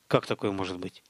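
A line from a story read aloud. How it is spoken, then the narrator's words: Muttered. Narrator (Russian): пробормотал Столяров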